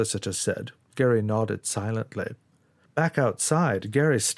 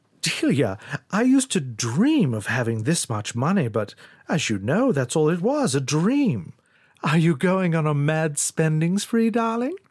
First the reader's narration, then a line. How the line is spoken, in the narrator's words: He laughed, shaking his head